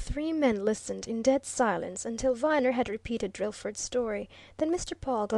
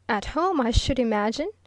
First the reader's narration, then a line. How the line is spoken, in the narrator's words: answered Viner with a laugh